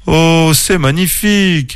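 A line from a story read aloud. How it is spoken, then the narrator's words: Amazed exclamation. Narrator (French): s'écria Clément, ses yeux brillants d'émerveillement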